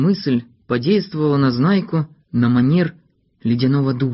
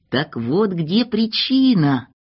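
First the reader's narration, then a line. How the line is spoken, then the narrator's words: Joyful exclamation. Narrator (Russian): радостно воскликнул он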